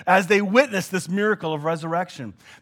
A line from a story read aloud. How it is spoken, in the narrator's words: they shouted praises to God, saying,